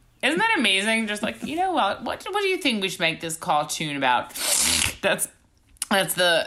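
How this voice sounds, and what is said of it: Usual voice. Nothing is said of it.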